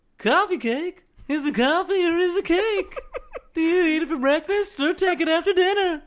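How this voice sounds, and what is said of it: Jerry Seinfeld impression. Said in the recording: “That's your go-to Jerry joke. ... best Jerry Seinfeld impression ever ... that was a good impersonation.”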